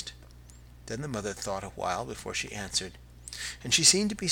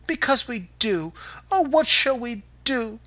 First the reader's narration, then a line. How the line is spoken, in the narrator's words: they cried together